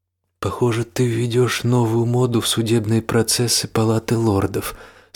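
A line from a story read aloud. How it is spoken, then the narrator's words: Plain. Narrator (Russian): сказал он Ричарду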